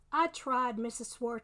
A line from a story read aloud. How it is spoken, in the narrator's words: he said